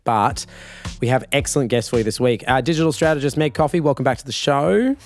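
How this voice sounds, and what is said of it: Partly lost, hoarse voice. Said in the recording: “please forgive me. I have lost my voice a little bit”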